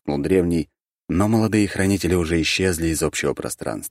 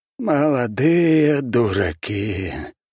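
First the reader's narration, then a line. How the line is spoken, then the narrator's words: Sighing old man. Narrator (Russian): вздохнул древний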